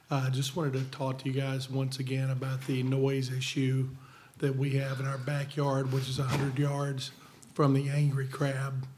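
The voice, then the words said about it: Hoarse, congested voice. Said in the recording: “Pardon my voice. Got a little cold here.”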